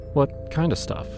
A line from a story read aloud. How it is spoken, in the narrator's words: pressed gently